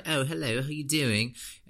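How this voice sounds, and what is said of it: Mock put-on foreign accent. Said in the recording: “you don't speak like that. How did you just pick up the accent in 2 weeks”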